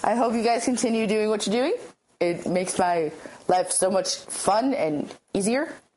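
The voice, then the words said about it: Sick, rough-sounding voice. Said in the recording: “I sound terrible. ... I have a terrible cold. ... well, not cold per se, cough.”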